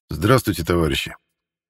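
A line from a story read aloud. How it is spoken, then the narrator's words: Quiet but audible. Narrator (Russian): Начал Константин негромко, но так, чтобы было слышно всем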